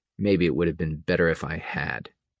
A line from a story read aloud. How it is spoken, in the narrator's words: Reynier said softly